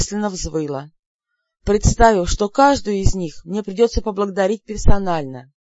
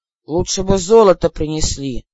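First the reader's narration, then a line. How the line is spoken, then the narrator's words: Grumbling. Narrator (Russian): ворчал Лин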